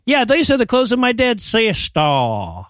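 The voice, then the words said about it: Bad, inconsistent Southern accent imitation. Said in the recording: “his accent. So he's going for a Southern accent, but only in words that end in R ... He's so bad.”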